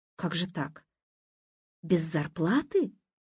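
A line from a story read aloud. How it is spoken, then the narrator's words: Confused question. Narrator (Russian): растерянно спросила Лиза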